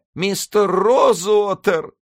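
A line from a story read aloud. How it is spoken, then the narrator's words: Sobbing. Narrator (Russian): всхлипнула она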